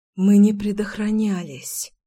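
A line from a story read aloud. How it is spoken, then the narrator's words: Breathless exhale. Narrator (Russian): выдохнула я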